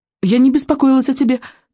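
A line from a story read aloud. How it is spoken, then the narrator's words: Hurried. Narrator (Russian): торопливо добавила она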